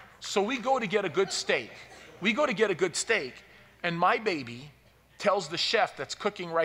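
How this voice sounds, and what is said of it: Usual voice. Nothing is said of it.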